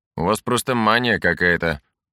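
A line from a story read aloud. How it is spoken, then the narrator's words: Grumbling. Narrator (Russian): проворчал Лей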